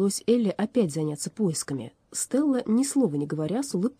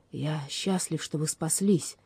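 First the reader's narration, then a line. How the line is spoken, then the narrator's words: Barely audible. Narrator (Russian): чуть слышным голосом произнес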